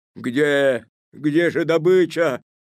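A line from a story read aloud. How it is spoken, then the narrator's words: Growling group. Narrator (Russian): зарычали они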